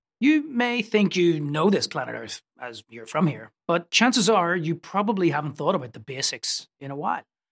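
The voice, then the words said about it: Belfast accent. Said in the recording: “the accent is from Belfast”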